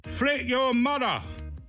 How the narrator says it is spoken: the senior was right in front of me when he yelled

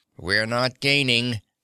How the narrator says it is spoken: said Teddy grimly

